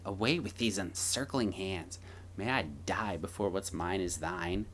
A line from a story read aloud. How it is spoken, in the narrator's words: Narcissus, however, ran back in shock and cried and mocked her, saying